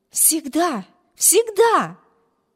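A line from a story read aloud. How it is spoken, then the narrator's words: Fervent exclamation. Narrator (Russian): горячо воскликнула сестра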